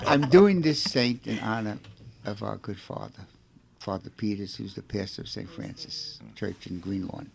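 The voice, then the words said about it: Brooklyn accent. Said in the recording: “I have a Brooklyn accent”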